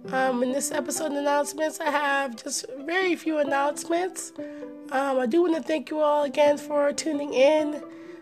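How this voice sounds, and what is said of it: Hoarse, sick-sounding voice. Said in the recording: “as you can probably tell from my voice, I am coming down with a few different things... Unfortunately, I am under the weather... I have bronchitis, laryngitis”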